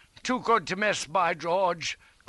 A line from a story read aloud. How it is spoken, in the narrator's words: cried